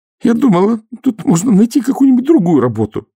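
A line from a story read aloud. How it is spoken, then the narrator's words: Moaning. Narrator (Russian): простонала Нюня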